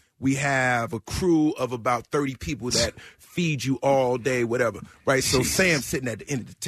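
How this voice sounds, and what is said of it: Usual voice. Nothing is said of it.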